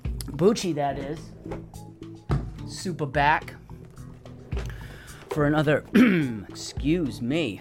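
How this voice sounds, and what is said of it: Hoarse, croaky voice. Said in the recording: “I know I have a frog in my throat. I got a whole... toad... in my throat.”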